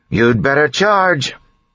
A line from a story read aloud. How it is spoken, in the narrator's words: she yelled